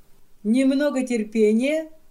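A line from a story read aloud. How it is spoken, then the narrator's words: Laughing. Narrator (Russian): смеясь, говорит он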